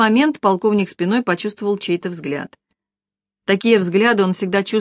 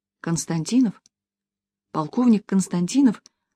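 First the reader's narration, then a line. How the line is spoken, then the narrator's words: Spellbound whisper. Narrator (Russian): шепотом произнесла Маша, глядя на Глеба, как зачарованная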